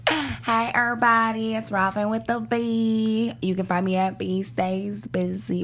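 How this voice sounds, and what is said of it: Put-on Southern accent. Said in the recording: “Got a southern accent. ... like he has some sweet tea”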